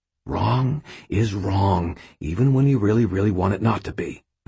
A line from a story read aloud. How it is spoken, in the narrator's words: I said quietly